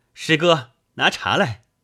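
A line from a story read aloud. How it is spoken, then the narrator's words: Monk calling out. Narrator (Chinese): 海和尚叫声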